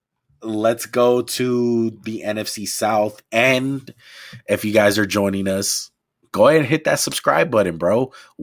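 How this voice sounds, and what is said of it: Hoarse, strained voice. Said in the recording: “My voice is fucked ... my voice is already beating the shit out of me”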